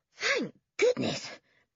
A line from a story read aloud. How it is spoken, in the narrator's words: panted Anne